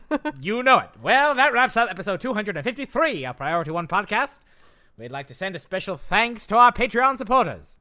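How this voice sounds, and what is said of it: Put-on transatlantic accent. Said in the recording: “He's bringing back that transatlantic accent.”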